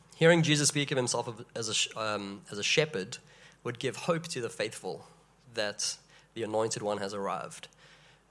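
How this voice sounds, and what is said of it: Sick-sounding, slightly off voice. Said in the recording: “I'm sick, as you can hear. ... My voice is a bit funny, and I'm on the verge of coughing”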